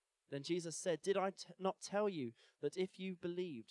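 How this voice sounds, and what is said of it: Usual voice. Nothing is said of it.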